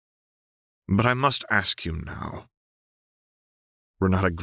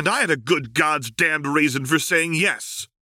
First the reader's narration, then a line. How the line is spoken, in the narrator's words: Seraphine snapped